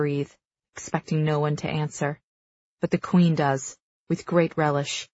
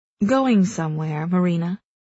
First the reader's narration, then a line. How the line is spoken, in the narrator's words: Ilara purrs